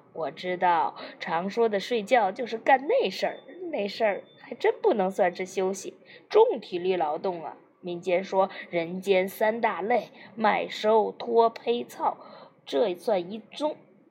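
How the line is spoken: Mischievous smirking voice. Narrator (Chinese): 百万福坏笑着说

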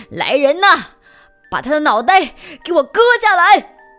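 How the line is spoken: Furious shout. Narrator (Chinese): 国王气得大喊

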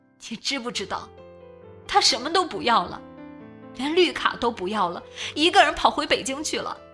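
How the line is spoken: Crying woman over phone. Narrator (Chinese): 电话那头哭泣的女人自顾自说着

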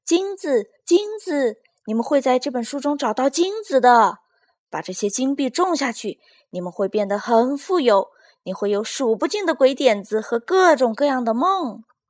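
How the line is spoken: Excited loud shout. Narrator (Chinese): 一只兴奋的小田鼠……大声喊道

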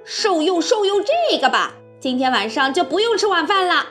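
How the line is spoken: Fierce child's shout. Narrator (Chinese): 这帮小坏蛋当中最凶的一个叫道

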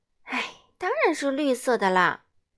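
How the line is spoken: Sighing reply. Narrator (Chinese): 白石通小姐一边叹着气回答

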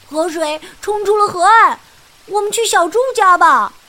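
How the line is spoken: Shout. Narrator (Chinese): 弗洛格喊道

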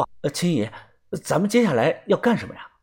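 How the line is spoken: Quiet. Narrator (Chinese): 我也小声的说

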